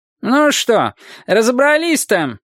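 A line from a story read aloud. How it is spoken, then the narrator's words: Cantankerous shout. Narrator (Russian): сварливо выкрикнул дизайнер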